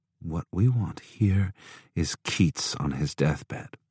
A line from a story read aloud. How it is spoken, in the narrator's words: she murmured